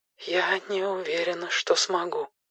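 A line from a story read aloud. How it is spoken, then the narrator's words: Barely audible, very quiet. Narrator (Russian): она говорила так тихо, что мне пришлось напрягать слух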